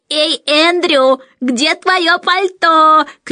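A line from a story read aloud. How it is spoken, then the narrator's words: Shrill mimicking shout. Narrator (Russian): кричал Майкл, подражая высокому визгливому голосу мисс Ларк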